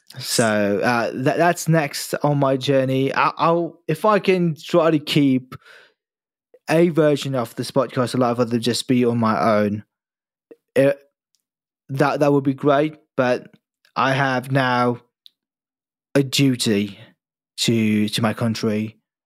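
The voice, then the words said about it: English accent. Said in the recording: “I know I sound like an Englishman.”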